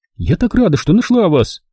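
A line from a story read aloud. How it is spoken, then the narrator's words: Exclaimed. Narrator (Russian): воскликнула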